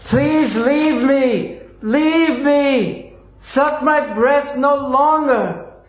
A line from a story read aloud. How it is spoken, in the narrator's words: she cried very loudly again and again